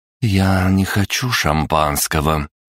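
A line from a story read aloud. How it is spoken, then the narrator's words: Icy voice through teeth. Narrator (Russian): ледяным голосом процедила девушка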